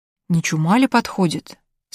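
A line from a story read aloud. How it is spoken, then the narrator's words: Plain. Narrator (Russian): спросила опять Вайтгифт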